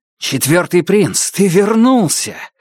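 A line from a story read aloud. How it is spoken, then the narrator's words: Joyful exclamation. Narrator (Russian): радостно воскликнул Башаса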